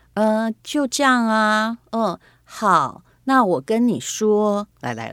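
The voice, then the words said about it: Quiet, timid imitated voice. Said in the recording (Chinese): “学她说话的方式 ... 声量也不够嘛 ... 是气势不够”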